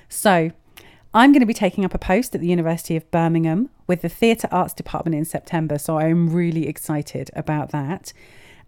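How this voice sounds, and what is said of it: Congested voice from a cold. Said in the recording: “you can probably hear in my voice, I currently have a stinking cold”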